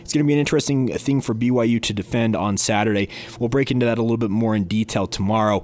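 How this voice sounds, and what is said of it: Voice sounds rough and unwell. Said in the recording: “Hopefully my voice sounds a little bit better by then. Don't want to subject you guys too much to this awful mess that's going on here.”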